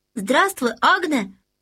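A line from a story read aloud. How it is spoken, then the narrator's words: Shouted greeting. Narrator (Russian): крикнул Людвиг XIV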